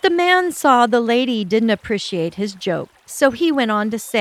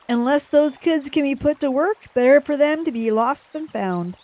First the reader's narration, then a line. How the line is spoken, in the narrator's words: The men all laughed and said